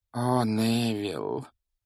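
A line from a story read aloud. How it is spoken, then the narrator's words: Elderly woman's heavy sigh. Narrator (Russian): тяжело вздохнула пожилая женщина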